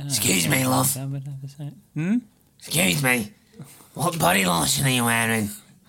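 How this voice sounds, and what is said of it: Creepy pervy character voice. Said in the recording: “It hurts my throat doing my pervy voice”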